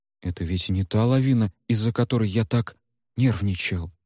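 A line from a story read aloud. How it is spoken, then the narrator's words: Uncertain cat suggesting. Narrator (Russian): неуверенно предположил кот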